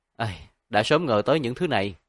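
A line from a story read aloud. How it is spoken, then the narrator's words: Sighing. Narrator (Vietnamese): Tổ An thở dài một hơi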